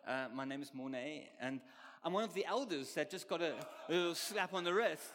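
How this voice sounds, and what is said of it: Strange-sounding foreign accent. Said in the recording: “who's this guy with a strange accent?”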